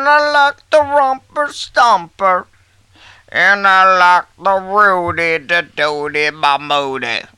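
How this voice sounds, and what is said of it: Imitates another person's voice. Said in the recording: “That's Bill Murray.”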